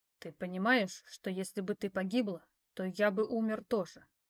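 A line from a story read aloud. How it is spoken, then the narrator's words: Stern question. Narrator (Russian): строго спросил он меня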